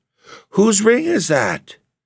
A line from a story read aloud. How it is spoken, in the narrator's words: she cried passionately